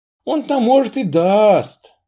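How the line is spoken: Sighing. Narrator (Russian): вздохнула она

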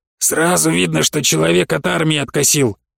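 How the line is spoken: Heavy sigh. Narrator (Russian): тяжело вздохнул Гудрон

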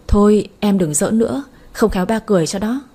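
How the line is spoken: Laughing. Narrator (Vietnamese): liền bật cười đáp

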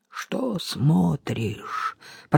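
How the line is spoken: Growled. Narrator (Russian): прорычал Нагасава

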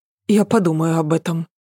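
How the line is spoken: Muttering. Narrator (Russian): пробормотала Ася

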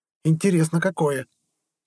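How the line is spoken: Angry young woman. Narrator (Russian): сердито ответила девушка

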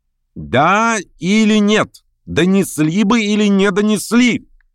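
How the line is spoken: Shout. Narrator (Russian): крикнул Верховенский

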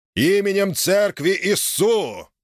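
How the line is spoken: Menacing voice. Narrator (Russian): произнес грозным голосом

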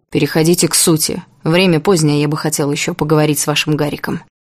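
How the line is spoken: Tired. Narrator (Russian): устало сказал Гущин

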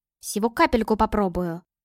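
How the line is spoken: Muttering. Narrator (Russian): пробормотал он

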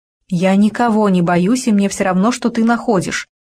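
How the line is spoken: Angry interruption. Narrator (Russian): сердито перебила Надежда Николаевна

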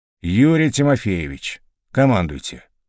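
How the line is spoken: Weary permission. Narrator (Russian): устало разрешил полковник

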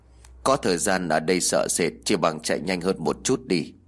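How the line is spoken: Cold. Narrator (Vietnamese): Bà Tăng lạnh lùng nói

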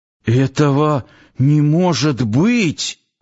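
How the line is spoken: Suddenly hoarse wheeze. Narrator (Russian): внезапно охрипнув, просипел Нанос

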